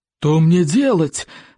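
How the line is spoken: Roared. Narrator (Russian): взревел стоек обширный

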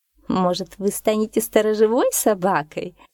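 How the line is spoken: Mocking. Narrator (Russian): насмешливо подсказала кошка

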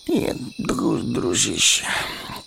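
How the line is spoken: Mumbling. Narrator (Russian): пробормотал Мэри

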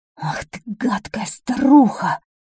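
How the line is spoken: Angry hiss. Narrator (Russian): зашипел от злости король

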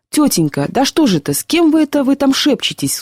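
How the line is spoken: Child's tearful cry. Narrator (Russian): вскрикнул слезами в голосе мальчик

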